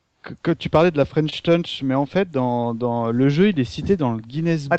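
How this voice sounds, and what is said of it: Put-on English accent in French. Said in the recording (French): “t'as le même accent anglais que Looping ... il reprend Looping ... c'est l'accent anglais de Looping”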